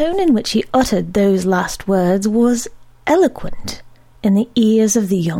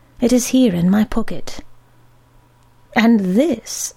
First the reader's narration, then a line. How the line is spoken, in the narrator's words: added kindly